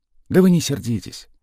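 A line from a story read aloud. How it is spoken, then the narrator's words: Gentle request. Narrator (Russian): мягко попросил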